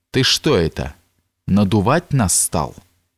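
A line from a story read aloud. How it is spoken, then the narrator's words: Menacing voice. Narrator (Russian): Голос Митяя звучал так грозно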